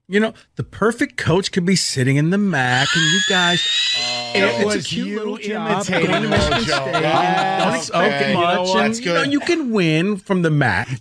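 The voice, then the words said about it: Impression of Coach Wojo. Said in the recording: “that is ... imitating Wojo”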